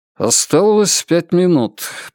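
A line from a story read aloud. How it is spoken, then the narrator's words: Mutter. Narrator (Russian): пробормотал маркиз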